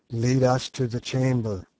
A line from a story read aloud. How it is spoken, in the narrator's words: said I in a low voice, somehow one did not dare to speak above a whisper in that place